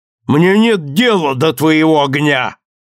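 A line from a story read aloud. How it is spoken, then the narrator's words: Angry shout. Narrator (Russian): сердито крикнул отец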